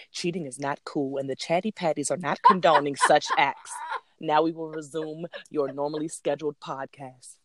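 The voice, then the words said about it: Formal announcer-style disclaimer voice. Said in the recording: “put on my disclaimer voice.”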